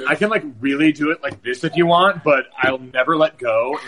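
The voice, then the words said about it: Valley Girl voice. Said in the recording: “I only know how to do two girl voices, South Park character or full-on Valley Girl”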